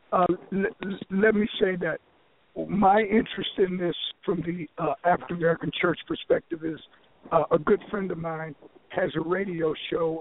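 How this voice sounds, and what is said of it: Strained, fading voice. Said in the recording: “as you can tell. I'm losing my voice”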